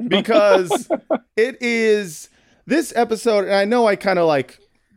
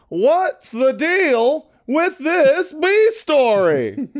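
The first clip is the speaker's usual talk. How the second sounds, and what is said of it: Jerry Seinfeld impression. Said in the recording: “I'm going to do it in my best Jerry Seinfeld voice.”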